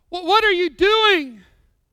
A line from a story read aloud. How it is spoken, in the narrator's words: cried one from the cave nervously